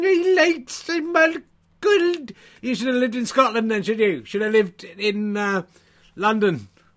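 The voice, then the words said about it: Put-on Scottish accent. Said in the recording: “my Scotch accent is very good”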